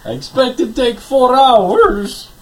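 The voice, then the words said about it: Low, slow put-on Russian accent. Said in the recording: “You're like Russian Andy Devine now ... you have the crack in the voice ... low, slow Russian voice”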